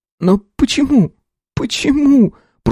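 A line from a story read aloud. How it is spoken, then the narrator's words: Moaning. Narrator (Russian): простонала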